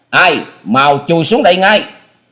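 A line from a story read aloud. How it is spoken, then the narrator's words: Thunderous roar. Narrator (Vietnamese): Âm thanh của tiếng quát chấn động cả mái nhà, cột kèo vang lên nghe răng rắc dữ dội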